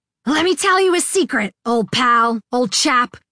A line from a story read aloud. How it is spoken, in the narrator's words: Ari yelled at me